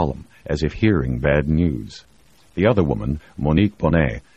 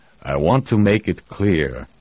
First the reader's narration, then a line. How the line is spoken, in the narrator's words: he said, almost in a growl